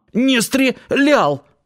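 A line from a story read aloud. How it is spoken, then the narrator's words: Hoarse reply. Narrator (Russian): прохрипеть в ответ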